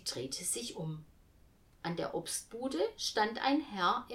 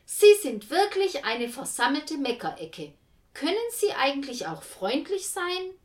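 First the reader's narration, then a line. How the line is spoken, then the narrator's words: Very loud. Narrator (German): Tante Lou sagte ganz laut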